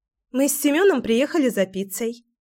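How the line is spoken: Cheerful. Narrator (Russian): весело произнесла Кира

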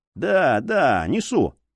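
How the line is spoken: Grumbling. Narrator (Russian): проворчал друг

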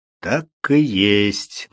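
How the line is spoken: Grim agreement. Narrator (Russian): мрачно согласился Грэхэм

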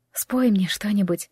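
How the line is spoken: Whisper in ear. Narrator (Russian): прошептала она у его уха

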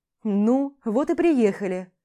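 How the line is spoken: Stern. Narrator (Russian): Так же строго, говорит он

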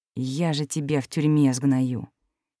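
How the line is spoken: Furious hissing lord. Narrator (Russian): прошипел лорд, лицо которого пошло красными пятнами

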